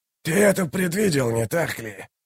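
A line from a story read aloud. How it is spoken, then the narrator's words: Hissed. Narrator (Russian): прошипел Каллор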